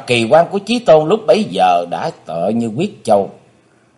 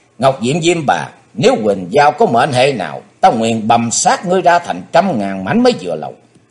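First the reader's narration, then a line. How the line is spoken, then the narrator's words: Sudden loud shout. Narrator (Vietnamese): Bất giác Chí Tôn quát to lên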